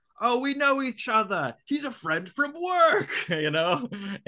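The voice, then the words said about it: Poor Australian accent impression. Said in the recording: “my poor, poor impression ... your terrible Australian accent? ... that's my terrible one.”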